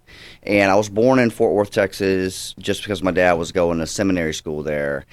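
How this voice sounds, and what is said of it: Mild Georgia Southern accent. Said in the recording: “you still have some of the accent, but it's not overly done”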